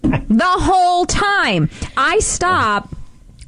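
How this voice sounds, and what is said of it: Usual voice. Nothing is said of it.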